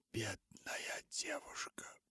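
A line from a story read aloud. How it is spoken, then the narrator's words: Whispered. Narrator (Russian): прошептала Руфь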